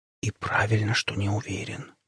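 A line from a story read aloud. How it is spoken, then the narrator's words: Whisper. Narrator (Russian): прошептала она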